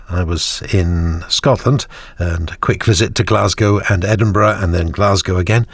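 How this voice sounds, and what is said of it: Voice affected by a cold. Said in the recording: “As for where I caught the cold, which is currently bothering me ... the cold's very annoying”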